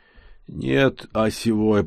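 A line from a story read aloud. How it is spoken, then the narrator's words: Pained moan. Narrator (Russian): простонал я, сжимая руками раскалывающуюся, пылающую нестерпимым жаром голову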